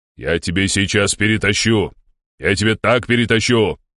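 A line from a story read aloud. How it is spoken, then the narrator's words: Angry bark. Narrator (Russian): рявкнул полковник, багровее лицом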